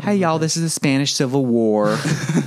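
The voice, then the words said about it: Put-on Southern American accent. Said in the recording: “read it in Southern accents”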